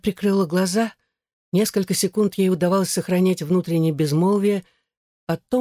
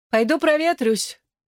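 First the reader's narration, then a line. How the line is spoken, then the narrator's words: Shouted. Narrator (Russian): она уже на выходе крикнула им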